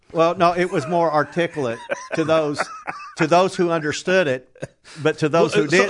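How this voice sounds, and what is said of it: Southern US accent. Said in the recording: “someone with your accent living in Colorado ... I was advised to stay in the South ... my accent was twice as worse”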